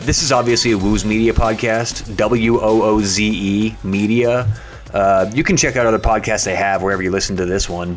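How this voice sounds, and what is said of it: Sick, unwell-sounding voice. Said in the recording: “As you can maybe hear in my voice, not doing too well right now. I think I got COVID.”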